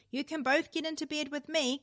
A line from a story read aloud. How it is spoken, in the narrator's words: called out Mother